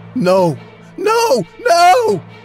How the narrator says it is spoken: One guy started to scream

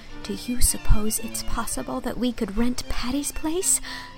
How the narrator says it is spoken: said Anne in a whisper

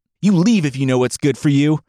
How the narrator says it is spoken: he yelled

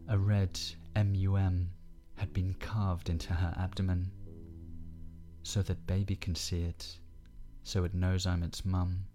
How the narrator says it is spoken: Ellie said to Ben earnestly

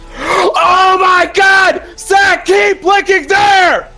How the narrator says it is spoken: Kelly screamed

